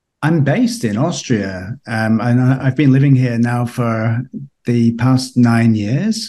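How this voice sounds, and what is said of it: British accent. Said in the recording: “you may detect from my accent that I'm from the UK originally”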